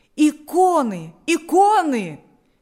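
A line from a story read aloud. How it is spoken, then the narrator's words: Several voices shouting. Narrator (Russian): кричали несколько голосов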